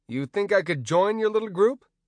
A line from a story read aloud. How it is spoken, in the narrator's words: Mad Morgan scoffed